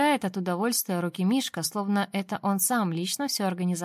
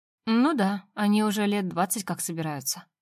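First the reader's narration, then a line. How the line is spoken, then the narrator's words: Tired reply. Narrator (Russian): устало отвечаю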